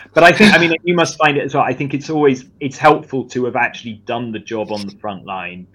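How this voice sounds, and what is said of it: Charming game show host accent. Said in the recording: “your charming game show host. Uh, you know, accent”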